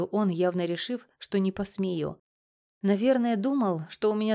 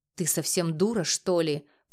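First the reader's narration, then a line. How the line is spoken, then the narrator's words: Growled. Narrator (Russian): прорычал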